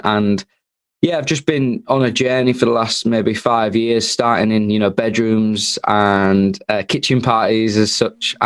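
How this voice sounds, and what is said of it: Northern English Hull accent. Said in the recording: “from the northeast of England, which is the sunny coast of Hull. Doesn't get much further north than that. You can probably tell that by the accent.”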